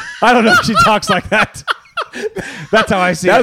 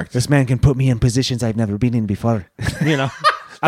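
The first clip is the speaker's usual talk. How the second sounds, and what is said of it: Zorro-style accent. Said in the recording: “That's more of like a Zorro accent, but that was great though.”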